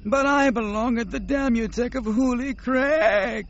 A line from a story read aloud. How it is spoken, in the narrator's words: Nomanor wailed